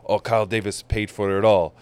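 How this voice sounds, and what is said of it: Poorly done foreign accent imitation. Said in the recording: “That was a terrible accent, by the way, that you just did. ... You pretended to be the hotel worker?”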